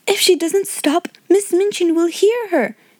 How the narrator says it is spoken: cried Jessie

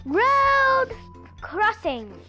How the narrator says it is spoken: he cried

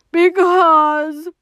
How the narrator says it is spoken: wailed Toad

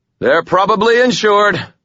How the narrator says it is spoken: I shouted

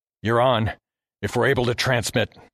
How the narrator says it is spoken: I told him through gritted teeth

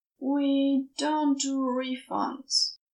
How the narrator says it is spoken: her dad said slowly

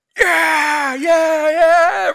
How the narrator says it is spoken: the crowd yells out

